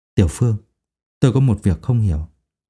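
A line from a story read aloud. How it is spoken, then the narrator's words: Wary lowered voice. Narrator (Vietnamese): Thầy Châu nắm số tiền trong tay, trầm tư một lúc, lại nhìn trước nhìn sau, bên trái bên phải, hạ giọng nói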